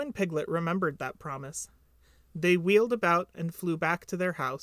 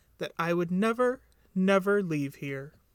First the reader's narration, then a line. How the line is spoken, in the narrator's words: sighed deeply